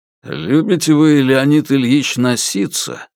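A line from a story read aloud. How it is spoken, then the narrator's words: Embarrassed grumble. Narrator (Russian): издал председатель КГБ смущенное ворчание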